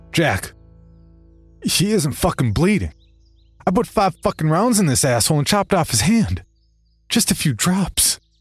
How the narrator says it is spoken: I said desperately, trying to express my confusion

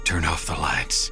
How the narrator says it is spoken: Galen whispered

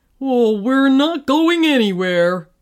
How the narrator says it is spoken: groaned the fireman

